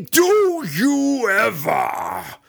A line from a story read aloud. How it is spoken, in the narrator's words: the Yawklaw growled